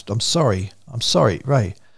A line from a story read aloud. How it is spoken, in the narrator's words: Paris gasped